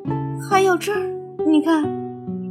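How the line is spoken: Startled cry. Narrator (Chinese): 乌鸦惊叫起来

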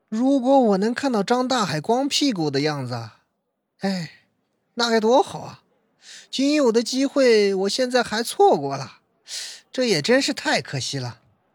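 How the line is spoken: Wistful sigh. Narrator (Chinese): 小四又突然一脸惆怅的样子，叹了口气，说道

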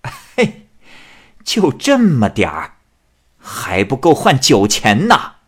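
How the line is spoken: Old woman laughing. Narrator (Chinese): 老太太笑着说

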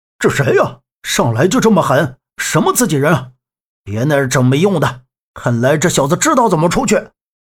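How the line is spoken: Angry. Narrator (Chinese): 靶子怒目睁眉道

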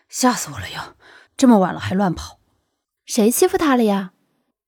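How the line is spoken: Deliberately lowered voice. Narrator (Chinese): 苏阳一句话纵然刻意压低

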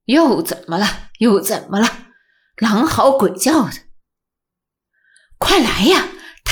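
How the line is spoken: Muttering. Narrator (Chinese): 金三爷嘟囔着

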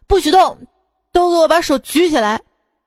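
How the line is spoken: Robber shouting. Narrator (Chinese): 一个劫匪叫道

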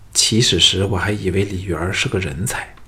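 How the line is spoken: Admiring sigh. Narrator (Chinese): 非常欣赏，同时感叹说

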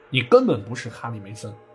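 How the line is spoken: Very angry. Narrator (Chinese): 西比尔非常愤怒地说

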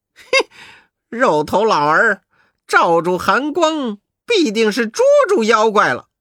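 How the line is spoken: Laughing question. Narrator (Chinese): 悟空笑着问

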